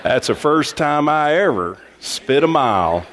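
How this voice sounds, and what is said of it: Put-on Texas accent. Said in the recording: “should have been said with a Texas accent.”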